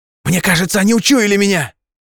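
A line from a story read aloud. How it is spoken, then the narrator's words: Desperate yell. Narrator (Russian): отчаянно заорал он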